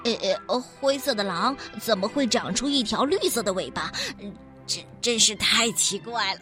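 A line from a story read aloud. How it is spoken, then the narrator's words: Muttering. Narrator (Chinese): 它嘀嘀咕咕地说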